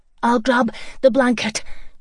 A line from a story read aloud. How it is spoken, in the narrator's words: Joey panted